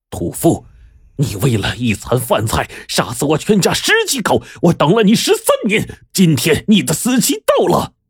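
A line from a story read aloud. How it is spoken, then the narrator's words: Sudden furious roar. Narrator (Chinese): 哑巴突然怒吼了一声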